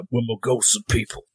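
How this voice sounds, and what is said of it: Imitates a game character's voice. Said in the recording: “that impression... That was beautiful, dude.”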